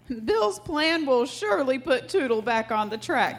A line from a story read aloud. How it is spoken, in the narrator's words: he chuckled